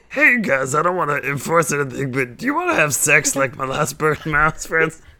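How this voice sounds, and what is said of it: Imitates another person's voice. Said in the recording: “that's my impression of Frankie ... a pretty good Bobcat Goldthwait impression”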